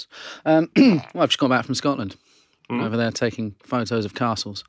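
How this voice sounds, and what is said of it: Tired-sounding voice. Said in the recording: “I'm a little tired. ... You can probably hear it in my voice.”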